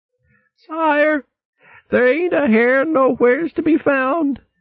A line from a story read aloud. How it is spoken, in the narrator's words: he croaked feebly